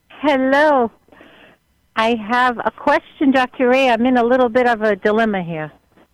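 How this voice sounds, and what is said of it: Northeastern US accent. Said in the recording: “I like your Northeast accent.”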